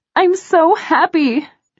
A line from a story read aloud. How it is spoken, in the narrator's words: she shouts over the music